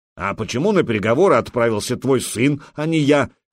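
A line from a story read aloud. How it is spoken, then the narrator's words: Angry. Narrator (Russian): сердито проговорил ярл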